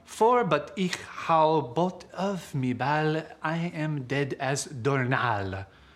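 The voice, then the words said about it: Put-on French accent. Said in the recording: “using your French accent”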